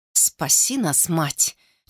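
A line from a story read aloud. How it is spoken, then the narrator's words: Barely audible breath. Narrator (Russian): чуть слышно выдохнул он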